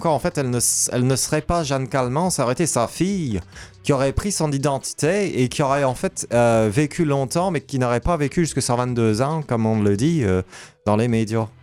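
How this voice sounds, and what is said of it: Very poor put-on Québécois accent. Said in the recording (French): “Vous n'avez pas forcément un accent québécois ... J'avoue qu'il est extrêmement pourri.”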